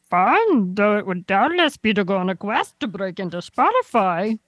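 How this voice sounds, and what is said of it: Yoda impression with odd accent. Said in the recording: “Can you read it like Yoda? ... Oh, I had a weird accent in there too.”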